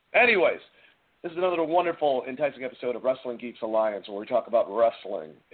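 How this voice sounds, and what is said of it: Slightly hoarse voice. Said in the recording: “I'm a little hoarse tonight”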